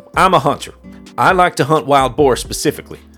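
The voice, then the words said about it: Reading in a put-on accent. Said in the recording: “read it with an accent or without an accent? ... I fear your accents ... This is how I imagine he sounds”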